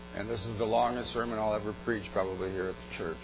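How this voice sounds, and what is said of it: Weak, failing voice. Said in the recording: “My voice is failing me.”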